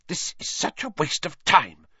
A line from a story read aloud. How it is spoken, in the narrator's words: Hermione hissed